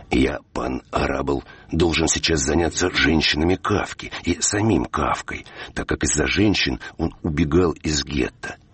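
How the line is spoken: Whisper. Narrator (Russian): Томаш Мазл нашептывал мне

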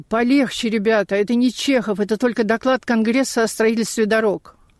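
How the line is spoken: Groaning. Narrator (Russian): наш венгр стонал

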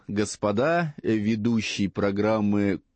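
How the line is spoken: Menacing voice from above. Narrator (Russian): Голос откуда-то сверху грозно сказал

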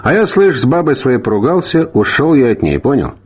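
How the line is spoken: Sigh, blurted unexpectedly. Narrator (Russian): Чонкин вздохнул и неожиданно для самого себя вдруг сказал

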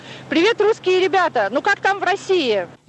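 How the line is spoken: Shout. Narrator (Russian): Он закричал

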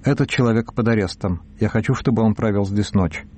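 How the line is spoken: Dry curt tone. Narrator (Russian): Руис Алонсо сухо сказал

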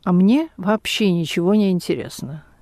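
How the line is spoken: Calm. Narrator (Russian): директор спокойно сказал

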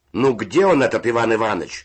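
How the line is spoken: Distant shout from above. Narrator (Russian): закричал голос верхних нар

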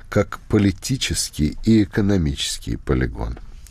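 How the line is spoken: Soft, respectful correction. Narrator (Russian): Пономарев, мягко и уважительно пытаясь поправить Устинова, сказал

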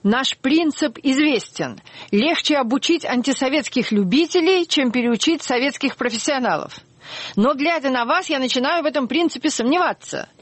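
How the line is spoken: Shouting. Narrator (Russian): Гендлер кричал

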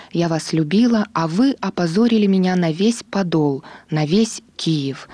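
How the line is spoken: Shouting. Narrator (Russian): кричала

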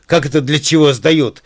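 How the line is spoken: Wild, shrill shout. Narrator (Russian): закричала она дурным голосом

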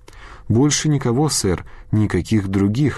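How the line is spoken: Plain. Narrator (Russian): ответил тот

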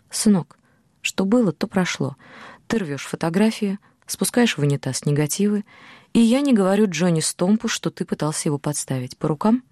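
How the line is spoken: Soft, Oklahoma accent. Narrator (Russian): Бас мягко, акцентируя свой оклахомский акцент, сказал

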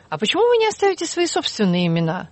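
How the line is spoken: Plain. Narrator (Russian): спросил Уилсон

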